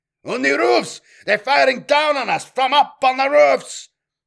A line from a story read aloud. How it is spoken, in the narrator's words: shouted an unidentified voice in warning from over the voxnet